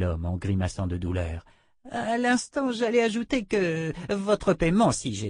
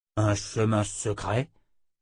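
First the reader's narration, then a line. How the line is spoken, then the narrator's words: Growled. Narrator (French): grogna Oba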